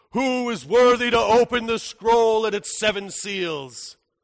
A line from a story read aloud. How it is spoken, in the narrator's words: a voice thunders out